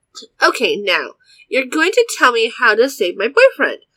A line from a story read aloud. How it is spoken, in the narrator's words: I snapped